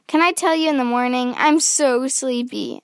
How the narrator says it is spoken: Allison said

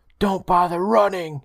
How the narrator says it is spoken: he growled

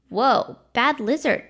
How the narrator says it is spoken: called out

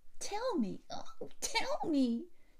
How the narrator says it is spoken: shrieked Effie

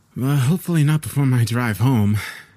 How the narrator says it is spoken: I sighed

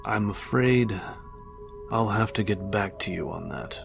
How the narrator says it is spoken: Trent said coolly

